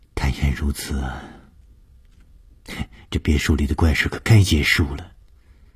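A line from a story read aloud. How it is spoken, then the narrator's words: Sighing. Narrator (Chinese): 舒子英叹了一口气说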